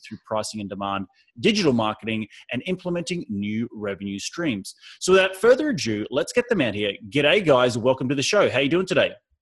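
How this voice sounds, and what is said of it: Australian accent. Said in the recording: “the Aussie accent is nice this morning”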